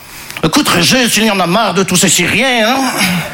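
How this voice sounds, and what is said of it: Put-on Belgian French accent. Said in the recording (French): “je prends l'accent belge parce que je ne sais pas faire l'accent chinois”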